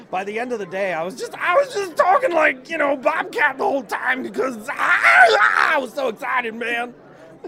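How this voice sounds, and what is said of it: Imitates another person's voice. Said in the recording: “Great Bobcat impression.”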